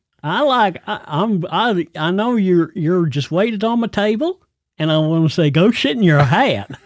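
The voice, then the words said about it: Caricatured American accent. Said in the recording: “I don't think anybody from the U.S. actually talks like I just spoke... It's called a caricature... you do caricature accents”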